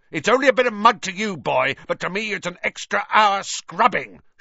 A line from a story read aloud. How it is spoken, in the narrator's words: shouted Filch